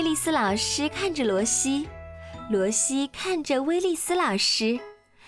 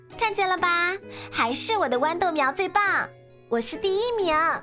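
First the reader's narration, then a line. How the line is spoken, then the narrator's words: Loud boasting. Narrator (Chinese): 威尔利特又大声地说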